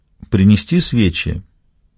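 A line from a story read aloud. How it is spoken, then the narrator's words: Quiet suggestion. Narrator (Russian): негромко предложил Курсель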